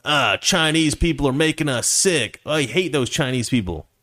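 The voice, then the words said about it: Hick accent. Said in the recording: “I don't know why I did like a hick accent.”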